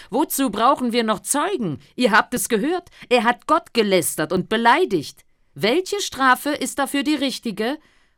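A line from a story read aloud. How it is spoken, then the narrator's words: Outraged priest crying out. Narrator (German): Da zerriss der hohe Priester sein Gewand und rief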